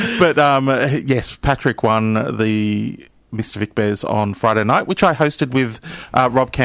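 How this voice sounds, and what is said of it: Usual voice. Nothing is said of it.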